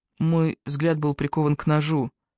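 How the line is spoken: Quiet. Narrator (Russian): негромко добавил Джастин

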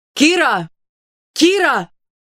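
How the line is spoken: Shouting in crowd. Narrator (Russian): Аарон снова закричал в толпе

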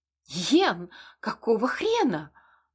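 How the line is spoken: Displeased exclamation. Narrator (Russian): воскликнула недовольно подоспевшая брюнетка

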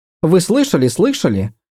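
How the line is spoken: Impatient babbling. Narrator (Russian): нетерпеливо пролепетала она

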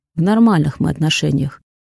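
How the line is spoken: Dry reply. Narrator (Russian): отвечает Арс сухо, говорить на эту тему он не хочет

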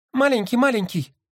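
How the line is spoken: Squeaking. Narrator (Russian): пропищал голубь

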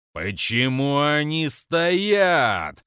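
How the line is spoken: Roar. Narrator (Russian): проревел Крофип

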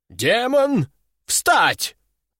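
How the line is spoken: Shouted command. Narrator (Russian): выкрикнул он

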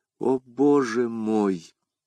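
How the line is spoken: Sigh. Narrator (Russian): вздохнула Кэти

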